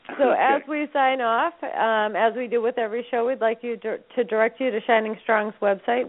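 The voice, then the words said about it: Strained, fading voice. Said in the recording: “I'm losing my voice now, too.”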